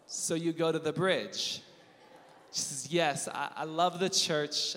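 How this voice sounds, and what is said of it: Usual voice. Nothing is said of it.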